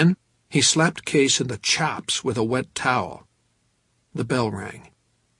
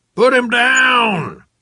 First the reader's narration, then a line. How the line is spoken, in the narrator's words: the chubby cigar smoker was screaming